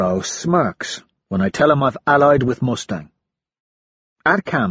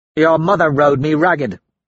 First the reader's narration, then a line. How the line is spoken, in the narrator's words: Severo grunts